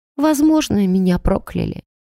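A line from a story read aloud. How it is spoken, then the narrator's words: Quiet woman. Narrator (Russian): тихо молвила женщина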